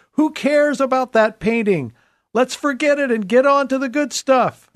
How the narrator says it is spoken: a bidder from the back shouted

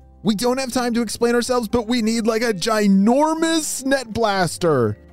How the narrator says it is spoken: shouted Atlas into his walkie-talkie

